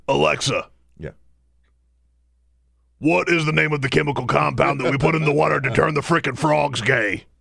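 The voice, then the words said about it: Imitates another person's voice. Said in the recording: “That's a really good Alex Jones impression.”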